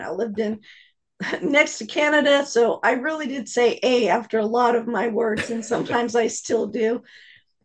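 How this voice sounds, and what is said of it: Southern US accent. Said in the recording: “I've got this Texas, Georgia, I don't know, it's just a Southern accent”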